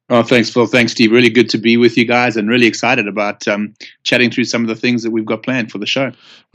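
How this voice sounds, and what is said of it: South African accent. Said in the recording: “your accent ... it's definitely not Australian and it's definitely not English for those of you who might confuse a South African accent”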